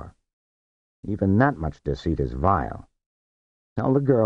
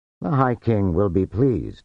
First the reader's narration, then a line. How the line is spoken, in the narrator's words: he said